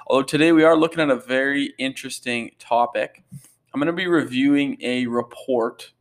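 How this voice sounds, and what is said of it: Hoarse, low-energy voice. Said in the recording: “I am feeling a little under the weather today ... my voice sounds a bit hoarse ... not the same pep that I might usually have ... some mumbling or it just sounds a bit hoarse on your end”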